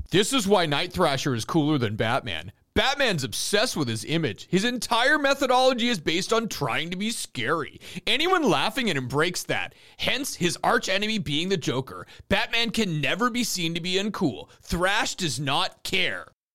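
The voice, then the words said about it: Imitates another person's voice. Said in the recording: “my Al Ewing impression”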